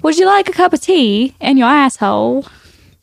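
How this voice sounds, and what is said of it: Put-on cockney British accent. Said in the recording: “show me a better British accent ... See, you're kind of cockney there.”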